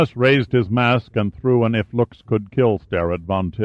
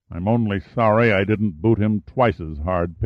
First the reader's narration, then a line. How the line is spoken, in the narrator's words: Pitt said through clenched teeth